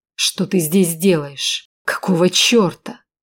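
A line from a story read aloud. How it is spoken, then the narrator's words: Through gritted teeth. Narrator (Russian): сквозь зубы процедил Эдвард Валкер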